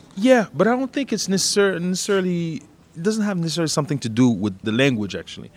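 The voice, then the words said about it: French accent in English. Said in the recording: “I have an accent when I speak English ... I have a French accent”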